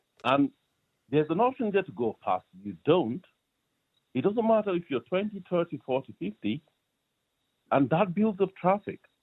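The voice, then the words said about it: Nigerian accent with slight Irish tinge. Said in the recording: “that's not an Irish accent. Well, there's a bit of an Irish accent in there too ... I'm originally from Nigeria.”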